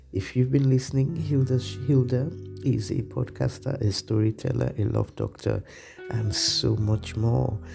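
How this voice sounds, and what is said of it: Husky voice. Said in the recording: “I have a bit of a cold, so my voice is somewhat husky this morning.”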